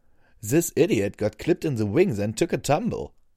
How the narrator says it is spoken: Scarlet said between laughs

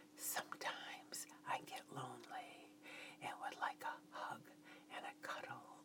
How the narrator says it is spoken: I said in a whispered voice

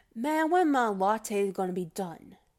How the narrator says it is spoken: getting a little huffier, getting a little puffier, rolling his eyes, sighing, and he comes up to me and says

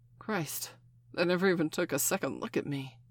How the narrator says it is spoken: Steph gasped

